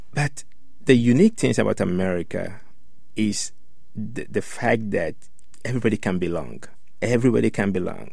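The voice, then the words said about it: Strong Ghanaian West African accent. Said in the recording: “somebody from Ghana, West Africa, with this big accent”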